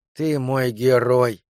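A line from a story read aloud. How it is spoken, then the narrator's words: Moaning. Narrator (Russian): простонала Лена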